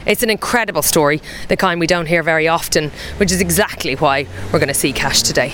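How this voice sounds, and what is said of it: Out of breath, breathy speech. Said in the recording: “I'm out of breath, I'm so unfit”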